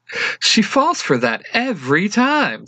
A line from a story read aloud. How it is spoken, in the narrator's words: Fu says with a laugh